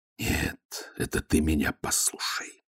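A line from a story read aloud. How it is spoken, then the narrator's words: Hissed. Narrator (Russian): прошипел Ваймс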